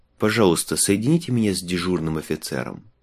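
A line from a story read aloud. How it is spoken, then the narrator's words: Calm. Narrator (Russian): спокойно сказал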